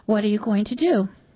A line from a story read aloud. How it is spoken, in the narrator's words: Her voice trembled